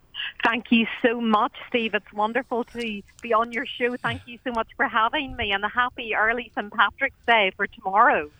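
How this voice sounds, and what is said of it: Irish accent. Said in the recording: “she has quite a lovely Irish accent”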